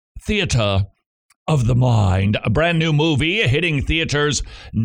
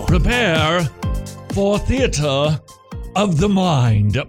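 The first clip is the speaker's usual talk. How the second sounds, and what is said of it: Exaggerated posh aristocratic voice. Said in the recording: “my best aristocratic impersonation right there with my pinky up”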